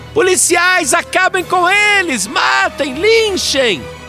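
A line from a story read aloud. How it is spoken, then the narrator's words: Frenzied shouting. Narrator (Portuguese): ela gritava mais do que torcedor fanático em dia de decisão de campeonato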